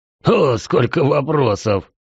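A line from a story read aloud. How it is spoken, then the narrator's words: Hoarse laughter. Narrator (Russian): Снова хриплый смех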